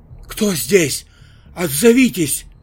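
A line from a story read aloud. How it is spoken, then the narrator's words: Childlike frightened cry. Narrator (Russian): закричала по-детски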